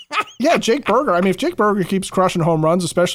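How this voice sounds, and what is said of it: Usual voice. Nothing is said of it.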